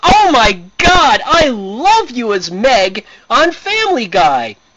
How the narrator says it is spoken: I look at her and scream

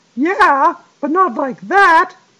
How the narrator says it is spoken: he exclaimed

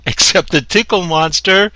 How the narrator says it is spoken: screams of pleasure

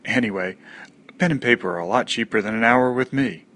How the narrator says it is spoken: he chuckled in that annoying way

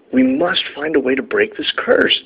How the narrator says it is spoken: the elves cried out

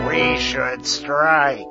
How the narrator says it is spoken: said a few of the trolls, and they grumbled agreement

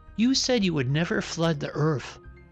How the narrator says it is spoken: said the man

